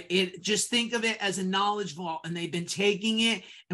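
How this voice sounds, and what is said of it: Yankee accent. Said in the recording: “I have a Yankee accent”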